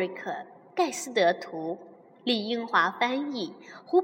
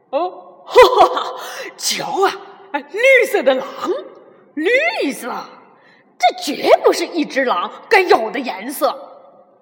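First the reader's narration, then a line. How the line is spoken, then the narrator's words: Loud laughter. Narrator (Chinese): 一只灰狼大声的笑起来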